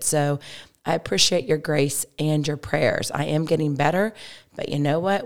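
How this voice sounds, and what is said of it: Slightly hoarse, froggy voice. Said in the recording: “my voice is a little bit better, but it still has a little bit of a frog to it”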